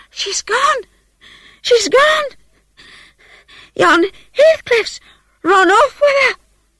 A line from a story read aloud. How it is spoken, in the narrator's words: gasped the girl